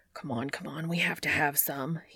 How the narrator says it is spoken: he mutters

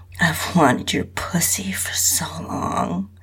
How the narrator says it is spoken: whispered in my ear

